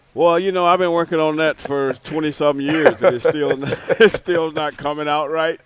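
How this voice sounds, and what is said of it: Southern American twang. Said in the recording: “that southern twang that I have”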